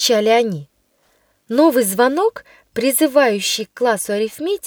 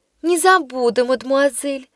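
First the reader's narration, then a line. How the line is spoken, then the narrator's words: Innocent tone, mischievous girl. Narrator (Russian): самым невинным тоном произнесла шалунья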